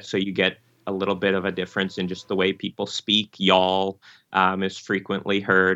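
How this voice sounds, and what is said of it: Nasal upper Midwest Michigan accent. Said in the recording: “the nasal Michigan, kind of that upper Midwest accent in my voice”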